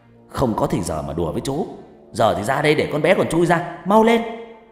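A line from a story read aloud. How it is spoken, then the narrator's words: Irritable snapping. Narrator (Vietnamese): Ông Đại gắt gỏng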